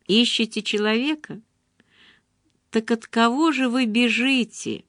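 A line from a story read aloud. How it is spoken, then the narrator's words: Whispered. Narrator (Russian): прошептал я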